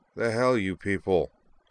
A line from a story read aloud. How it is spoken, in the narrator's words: the RA grumbled